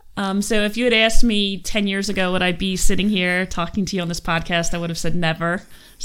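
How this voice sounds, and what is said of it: Philadelphia accent. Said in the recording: “I'm from Philadelphia ... That accent? ... I'm sure everybody picked it up”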